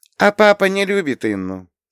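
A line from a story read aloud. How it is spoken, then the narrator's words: Calm answer. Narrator (Russian): спокойно ответила Лея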